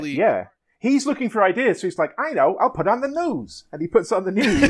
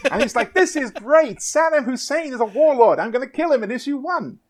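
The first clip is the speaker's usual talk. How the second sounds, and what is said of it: Poor put-on American accent. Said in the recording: “It's not a great impression, but you get the idea, right? ... that's what your American sounds like”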